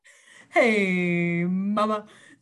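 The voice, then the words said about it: Cartoon character impression. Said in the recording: “How does Johnny Bravo say, hey, mama? ... That was my best impersonation.”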